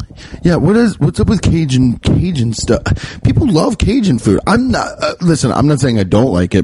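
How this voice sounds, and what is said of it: Usual voice. Nothing is said of it.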